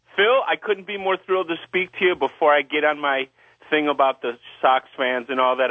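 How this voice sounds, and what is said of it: Chicago accent. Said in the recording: “Are you from Chicago? ... Yeah, I can tell the accent.”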